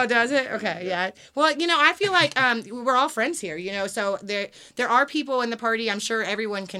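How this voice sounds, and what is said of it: Usual voice. Nothing is said of it.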